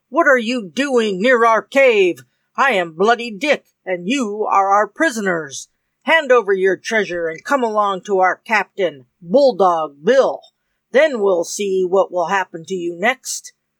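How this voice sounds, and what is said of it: Terrible, shouting pirate voice. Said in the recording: “shouted the leader of the band in a terrible voice.”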